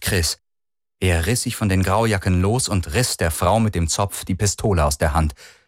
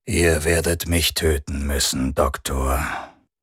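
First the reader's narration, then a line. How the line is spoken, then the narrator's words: Toneless. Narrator (German): sagte Rundor tonlos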